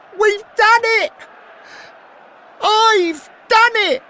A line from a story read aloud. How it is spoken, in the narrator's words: shouting